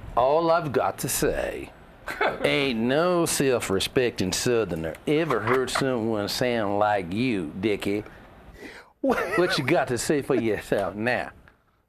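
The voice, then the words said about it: Put-on Southern accent. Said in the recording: “It's a Southern accent”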